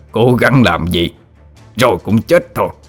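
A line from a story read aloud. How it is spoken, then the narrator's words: Gleeful mocking laughter. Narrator (Vietnamese): Tên tà sư cười lớn đầy khoái trá, giọng điệu bẩn cợt nói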